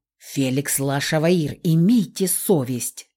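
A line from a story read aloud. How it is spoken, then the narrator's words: Irritated hiss. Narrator (Russian): Раздраженно зашипела я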